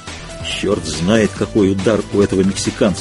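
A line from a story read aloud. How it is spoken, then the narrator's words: Whispered. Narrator (Russian): шепнул Дэнни тренеру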